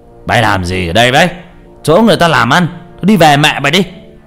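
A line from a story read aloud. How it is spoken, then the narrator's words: Loud tipsy old man. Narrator (Vietnamese): Do uống vài chén rượu, ông cũng to tiếng mở quát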